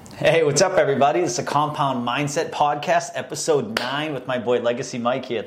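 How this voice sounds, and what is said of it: Boston accent. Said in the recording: “my Boston accent just came out there”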